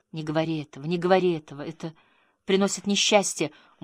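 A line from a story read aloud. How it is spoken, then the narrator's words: Tearful repetition. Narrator (Russian): женщина начала плакать, и сквозь слезы она повторяла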